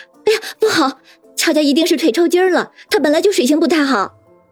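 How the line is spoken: Alarmed cry. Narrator (Chinese): 叶心雨 脸色大变，也惊叫道

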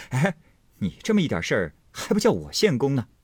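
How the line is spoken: Laughing. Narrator (Chinese): 贾琏笑道

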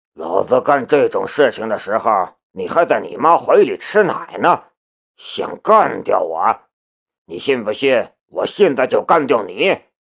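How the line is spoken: Calm, indifferent. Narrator (Chinese): 司机淡淡的道

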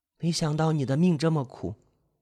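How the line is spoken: Sad lament. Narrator (Chinese): 他难免为他悲伤起来，止不住感叹

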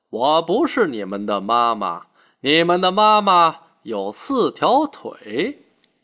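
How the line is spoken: Laughing. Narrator (Chinese): 金鱼笑着说

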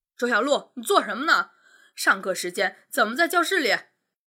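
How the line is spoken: Frantic shriek. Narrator (Chinese): 一名中年女教师抓狂的尖叫起来

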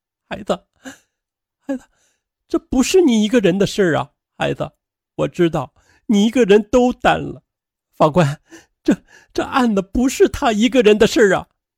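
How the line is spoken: Trembling mother's voice. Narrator (Chinese): 张笑的母亲她声音颤抖的说道

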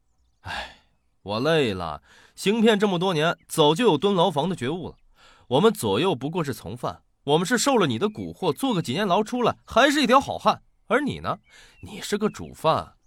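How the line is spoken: Sighing. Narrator (Chinese): 冯寒叹气道

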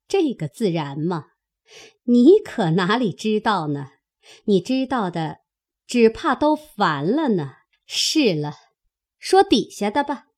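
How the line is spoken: Slight cold sneer. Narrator (Chinese): 凤姐儿微微冷笑道

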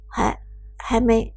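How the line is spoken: Quiet, mouth full. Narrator (Chinese): 伍兹一边小口咬开一枚馄饨，一边低声问道

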